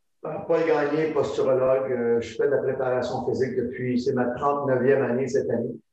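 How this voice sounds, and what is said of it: Canadian French accent. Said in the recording (French): “un Canadien sur, euh, enfin un Français avec un accent, un accent différent”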